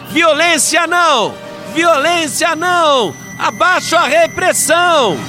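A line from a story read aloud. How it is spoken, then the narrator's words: Crowd chanting loudly. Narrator (Portuguese): a outra multidão gritava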